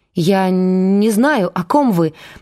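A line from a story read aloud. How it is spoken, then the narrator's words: Trembling woman's voice. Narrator (Russian): дрожащим голосом сказала она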